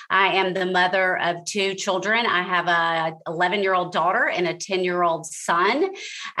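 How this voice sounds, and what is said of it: Mississippi Southern accent. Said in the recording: “I am originally from Mississippi, if you can't tell by my accent.”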